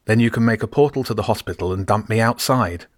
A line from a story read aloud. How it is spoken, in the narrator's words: James said, his voice sounding more normal now